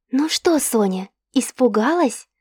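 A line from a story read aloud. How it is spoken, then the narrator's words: Whispered question. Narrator (Russian): спросила шепотом Заира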